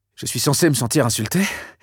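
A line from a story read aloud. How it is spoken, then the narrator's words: Breathy whisper. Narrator (French): demanda-t-il dans un souffle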